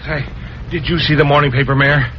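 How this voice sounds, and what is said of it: Out of breath, panting. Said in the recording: “you're all out of breath.”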